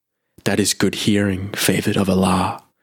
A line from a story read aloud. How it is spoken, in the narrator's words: answered Mikhail Oglu in his soft, courteous voice